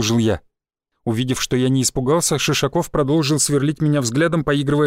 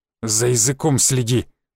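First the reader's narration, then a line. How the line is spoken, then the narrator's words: Angry growl. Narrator (Russian): зло прорычал Шишаков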